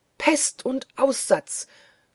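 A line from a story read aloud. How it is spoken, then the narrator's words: Servants shrieking. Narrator (German): kreischten die Knechte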